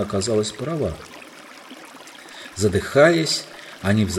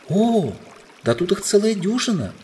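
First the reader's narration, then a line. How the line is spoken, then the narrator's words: Exclaimed. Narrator (Russian): воскликнула Сьюзан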